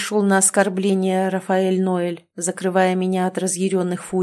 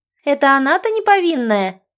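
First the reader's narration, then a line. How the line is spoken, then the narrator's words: Girl's shriek. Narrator (Russian): взвизгнула девушка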